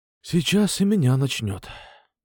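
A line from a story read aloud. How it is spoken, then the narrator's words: Breathy exhale. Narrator (Russian): выдохнул я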